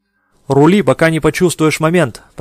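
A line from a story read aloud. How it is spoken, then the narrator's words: Shouting. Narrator (Russian): прокричал он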